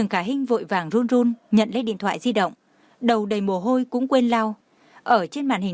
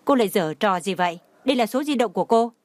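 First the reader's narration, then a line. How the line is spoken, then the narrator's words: Cold. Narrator (Vietnamese): Anh ta lạnh lùng nói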